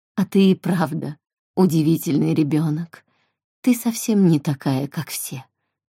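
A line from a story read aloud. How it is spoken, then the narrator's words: Plain, woman. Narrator (Russian): сказала женщина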